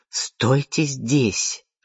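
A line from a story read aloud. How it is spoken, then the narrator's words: Irritated command. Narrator (Russian): раздраженно приказала Вианна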